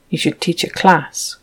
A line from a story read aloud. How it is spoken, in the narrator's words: Will muttered